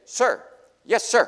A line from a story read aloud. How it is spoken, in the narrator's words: Tucker let out a short burst of three barks as if to say